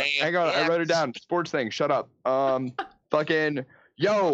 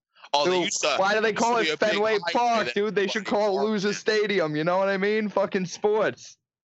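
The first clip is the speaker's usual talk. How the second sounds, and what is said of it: Put-on Boston accent. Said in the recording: “you just talking a Boston accent”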